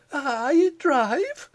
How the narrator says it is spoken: cried Pitman

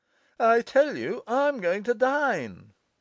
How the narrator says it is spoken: cried the younger brother

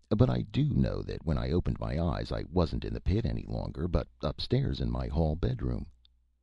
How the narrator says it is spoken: said the idiot calmly

